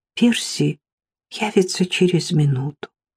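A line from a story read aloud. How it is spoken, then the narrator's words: Quiet. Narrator (Russian): тихо промолвила она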